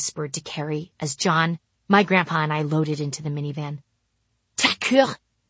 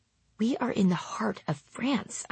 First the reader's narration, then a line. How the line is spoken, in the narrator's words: I mumbled to my brother